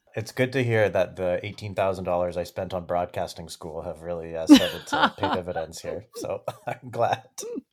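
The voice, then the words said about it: Smooth radio-announcer voice. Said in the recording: “His smooth radio voice ... You do have a radio voice.”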